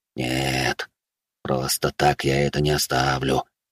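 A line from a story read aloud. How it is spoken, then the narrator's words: Maddened man whispering. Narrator (Russian): шептал обезумевший от власти и денег мужчина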